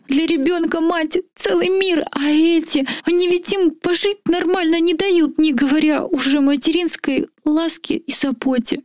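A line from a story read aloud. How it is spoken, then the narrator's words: Nearly sobbing aloud. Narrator (Russian): Уже едва ли не рыдала я в голос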